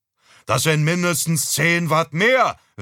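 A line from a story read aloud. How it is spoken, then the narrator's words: Father calling after. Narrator (German): rief mein Vater hinterher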